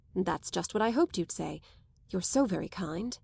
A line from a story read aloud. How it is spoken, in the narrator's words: Rosier murmured